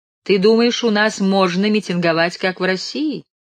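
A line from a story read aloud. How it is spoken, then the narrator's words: Sarcastic question. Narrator (Russian): язвительно спрашивал капитан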